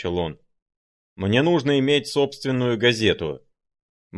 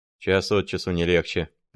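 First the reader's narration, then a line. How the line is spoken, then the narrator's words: Muttered. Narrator (Russian): пробормотал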